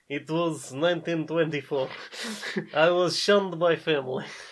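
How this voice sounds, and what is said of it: Put-on Eastern European accent. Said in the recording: “I don't know if this is a Russian accent. ... This is whatever accent this is. ... of Eastern ... European. Northern European accent. ... This is a 1920s elephant accent.”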